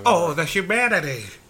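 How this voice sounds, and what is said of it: Old-timey radio announcer voice. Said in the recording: “he's doing it in that old-timey radio voice.”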